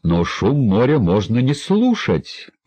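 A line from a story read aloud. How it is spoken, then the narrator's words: Exclaimed, thin man. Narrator (Russian): воскликнул тощий Жак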